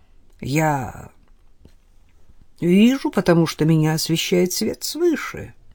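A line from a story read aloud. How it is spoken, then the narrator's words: Perfectly natural tone. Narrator (Russian): совершенно естественным тоном произнес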